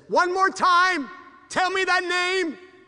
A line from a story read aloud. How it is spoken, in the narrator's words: frantically the native, thinking he may never hear the name again, said